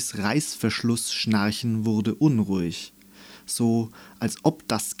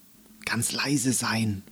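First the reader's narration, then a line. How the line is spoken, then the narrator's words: Whispered. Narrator (German): flüsterte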